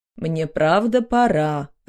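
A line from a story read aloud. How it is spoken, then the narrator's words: Plain. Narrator (Russian): ответил муж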